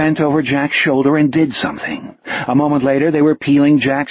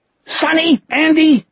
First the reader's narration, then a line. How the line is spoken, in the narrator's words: Gardner screamed